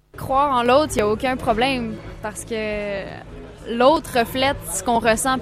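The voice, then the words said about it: Warm Québec French accent. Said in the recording (French): “L'accent aussi chaleureux de ... l'accent du Québec”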